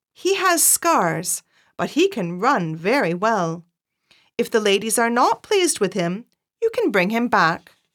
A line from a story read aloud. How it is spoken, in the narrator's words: said my master